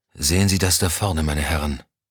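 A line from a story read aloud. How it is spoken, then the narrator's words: Hoarse question. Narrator (German): fragte er heiser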